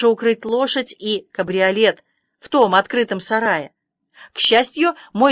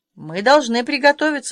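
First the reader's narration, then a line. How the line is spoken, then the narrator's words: Calm. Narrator (Russian): сказала Аня спокойно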